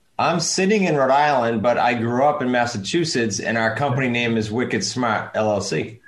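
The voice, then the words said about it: Slight East Coast American accent. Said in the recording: “a little bit of an East Coast accent.”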